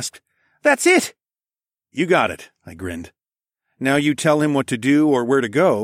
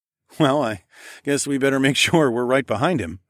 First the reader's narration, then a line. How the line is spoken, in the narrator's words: I chuckled